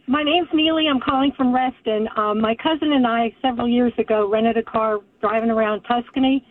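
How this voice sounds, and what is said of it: Congested, stuffed-up voice. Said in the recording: “you sound really stuffed up.”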